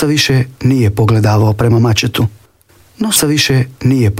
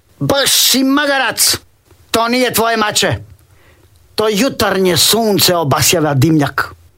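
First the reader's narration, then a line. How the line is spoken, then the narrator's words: Woman shouting. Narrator (Croatian): Žena vikne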